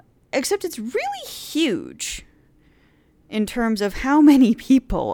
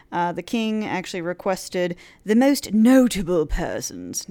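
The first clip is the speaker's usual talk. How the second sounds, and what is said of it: Put-on English accent. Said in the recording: “I don't know why I did that with an English accent”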